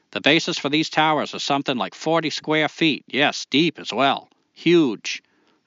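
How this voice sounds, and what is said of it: Maine accent drifting toward Bronx. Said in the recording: “that good of a Maine accent ... I felt like I kind of slipped into the Bronx in the middle”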